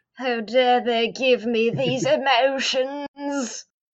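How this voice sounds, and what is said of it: Put-on English British accent. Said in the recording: “there's that English British accent”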